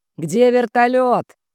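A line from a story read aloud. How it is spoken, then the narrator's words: Distant shouting. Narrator (Russian): кричал вдалеке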